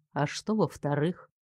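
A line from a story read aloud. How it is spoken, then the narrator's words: Sudden soft question. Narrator (Russian): вдруг мягко спросил он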